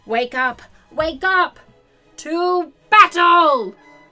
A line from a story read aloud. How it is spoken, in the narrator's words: a small, proud voice shouted from the cabinet